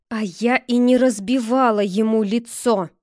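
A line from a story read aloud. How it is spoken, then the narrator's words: Through gritted teeth. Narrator (Russian): сквозь зубы процедила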